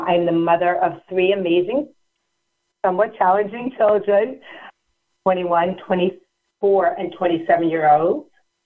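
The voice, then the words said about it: New York accent. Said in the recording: “the New York accent.”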